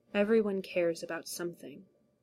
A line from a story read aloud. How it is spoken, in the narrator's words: Eames said quietly